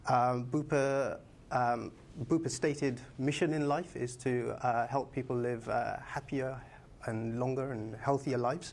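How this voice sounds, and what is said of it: London accent. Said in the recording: “You can probably tell from my accent, I'm not a local. I'm from London.”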